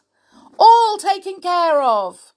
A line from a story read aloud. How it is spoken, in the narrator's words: cried Mr